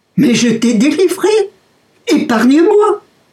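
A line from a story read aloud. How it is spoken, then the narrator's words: Stunned fisherman crying out. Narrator (French): Le pêcheur, abasourdi, n'en croyant pas ses oreilles, s'écria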